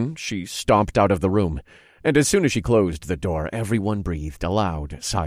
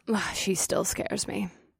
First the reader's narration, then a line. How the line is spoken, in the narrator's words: Nix muttered under her breath